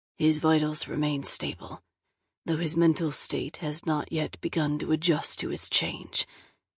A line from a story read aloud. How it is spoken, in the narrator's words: Adric said quietly, his voice gravelly with pain